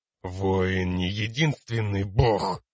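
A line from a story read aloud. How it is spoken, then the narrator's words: Man through gritted teeth. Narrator (Russian): процедил мужчина сквозь зубы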